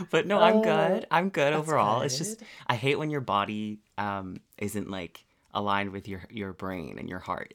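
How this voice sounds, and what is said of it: Stuffed-up, nasal voice. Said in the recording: “I'm like weirdly stuffed up... if I sound like a little under the weather... you just sound like Phoebe on Friends”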